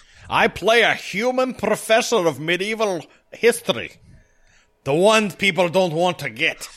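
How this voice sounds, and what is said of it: Wandering put-on Scottish actor accent. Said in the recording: “I don't know where this accent is. It's kind of become Dougray Scott. ... It's kind of Dougray. It's Dougray Connery.”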